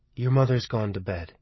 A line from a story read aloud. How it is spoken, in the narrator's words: Michael said quietly